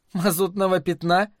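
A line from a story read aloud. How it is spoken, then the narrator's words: Incredulous question. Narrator (Russian): недоверчиво спросила Лаверн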